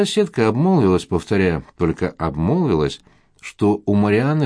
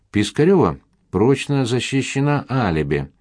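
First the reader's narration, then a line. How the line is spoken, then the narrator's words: Plain. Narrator (Russian): сказал Константин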